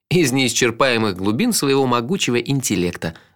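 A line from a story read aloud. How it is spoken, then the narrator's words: Laughing. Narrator (Russian): рассмеялся я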